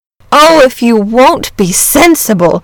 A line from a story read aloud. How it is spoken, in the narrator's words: cried the boy